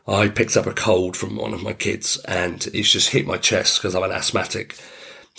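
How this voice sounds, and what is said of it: Deep, croaky voice. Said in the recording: “it's really croaky ... I'm really croaky ... my voice goes really deep and croaky”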